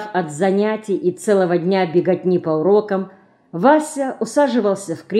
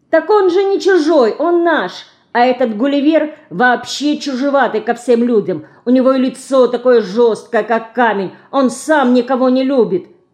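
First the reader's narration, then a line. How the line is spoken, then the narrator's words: Shouting. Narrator (Russian): кричала Динка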